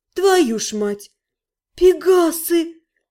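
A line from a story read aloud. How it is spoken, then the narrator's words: Delighted breathless exclamation. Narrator (Russian): восторженно выдохнула я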